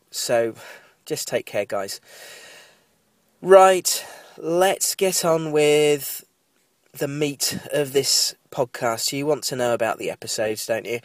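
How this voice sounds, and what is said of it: Nasal, congested, sniffly voice. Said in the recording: “if I sound a bit nasal ... I've got a cold ... apologies if I sound sniffly or bunged up”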